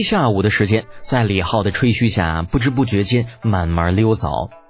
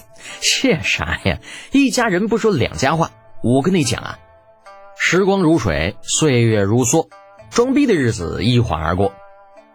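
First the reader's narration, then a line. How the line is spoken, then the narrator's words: Laughing, nonchalant. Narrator (Chinese): 李浩哈哈一笑，满不在乎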